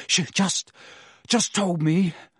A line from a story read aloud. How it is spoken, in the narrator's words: Harry panted